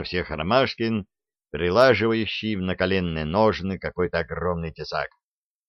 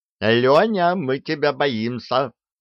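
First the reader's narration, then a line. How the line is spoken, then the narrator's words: Shouted by several brothers. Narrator (Russian): закричали братья-радисты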